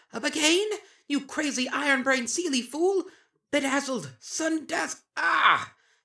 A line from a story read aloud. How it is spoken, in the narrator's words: The changeling queen screaming